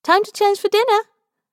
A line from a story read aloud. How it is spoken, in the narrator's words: she chirps